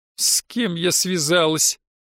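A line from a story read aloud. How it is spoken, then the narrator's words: Muffled moan. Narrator (Russian): простонала Наташа, пряча лицо в ладонях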